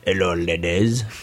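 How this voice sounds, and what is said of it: Put-on French accent. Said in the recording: “That was more of a French accent.”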